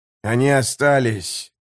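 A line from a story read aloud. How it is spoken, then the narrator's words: Disgusted grumbling. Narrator (Russian): проворчал жемчуг с гримасой отвращения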